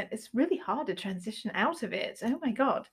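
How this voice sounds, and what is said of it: Put-on British accent by American. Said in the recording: “we don't speak with a British accent ... it sounds terrible after we've been speaking in a British accent ... really hard since I'm buzzed to not speak in a British accent”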